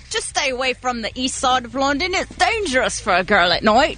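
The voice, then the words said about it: Cockney accent. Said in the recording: “your Cockney accent”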